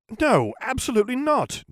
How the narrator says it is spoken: Jim exclaimed

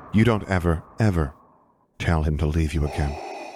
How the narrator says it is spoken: she said softly

